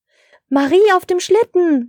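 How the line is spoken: Surprised exclamation. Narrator (German): rief Herr Schneemann überrascht

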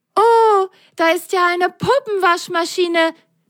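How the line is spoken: Delighted loud exclamation. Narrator (German): Völlig entzückt rief Lili laut

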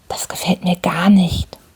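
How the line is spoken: Whispering into ear. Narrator (German): flüsterte er mir ins Ohr

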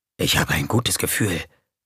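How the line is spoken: Whispered. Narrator (German): wisperte

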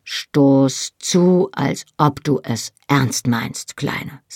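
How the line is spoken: Plain. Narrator (German): sagte er

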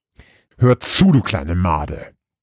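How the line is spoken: Deep growl. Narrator (German): knurrte sie ihren Bruder mit tiefer Stimme an

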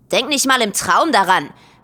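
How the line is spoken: Called from somewhere unseen. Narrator (German): rief es von irgendwoher

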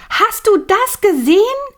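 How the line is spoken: Cry out. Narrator (German): Millie neben ihm schrie auf

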